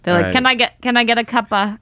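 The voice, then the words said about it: Weak attempt at Boston accent. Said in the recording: “I can't do the accent. ... Boston accent.”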